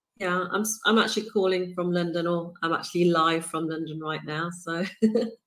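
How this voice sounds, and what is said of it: British accent. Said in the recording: “if you couldn't tell by the accent and the fact that I said ... the Brit, ... is coming to us from the UK”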